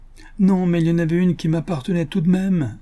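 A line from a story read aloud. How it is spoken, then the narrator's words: Little man moaning. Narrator (French): gémit le petit homme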